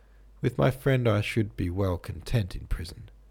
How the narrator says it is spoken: I said evenly

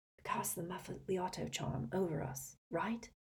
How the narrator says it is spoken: he whispered to Hermione

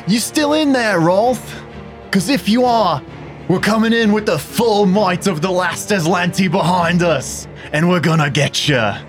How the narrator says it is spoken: he's going to shout into the room

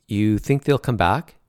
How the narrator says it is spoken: Brett asked

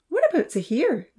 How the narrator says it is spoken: Lily piped up

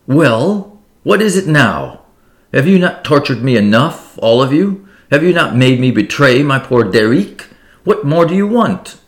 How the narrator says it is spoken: she cried

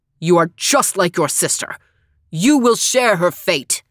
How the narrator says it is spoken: shouting

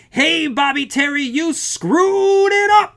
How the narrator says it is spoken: The dark man bellowed

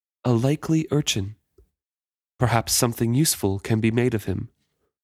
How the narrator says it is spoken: The pirate's mouth scarcely moved as, in the softest whisper imaginable, Wintrow heard him say

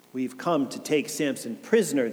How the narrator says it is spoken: they answered

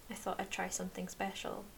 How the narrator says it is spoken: Marco says

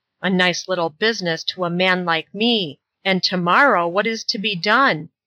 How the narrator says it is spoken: So saying, constantly grumbling

